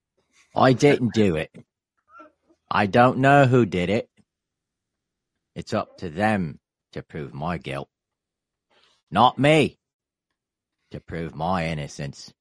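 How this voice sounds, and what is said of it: Put-on Australian accent. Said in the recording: “in your best Aussie accent ... That was very good. ... Sound like Jason Statham.”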